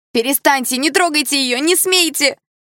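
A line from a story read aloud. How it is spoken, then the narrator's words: Woman screaming. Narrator (Russian): закричала какая-то брюнетка с окровавленной губой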